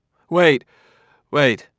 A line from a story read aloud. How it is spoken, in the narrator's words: cried Bailey